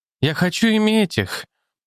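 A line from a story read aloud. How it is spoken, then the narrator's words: Sad. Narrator (Russian): грустно сказала она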